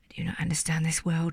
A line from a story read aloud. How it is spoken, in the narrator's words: sighed the little prince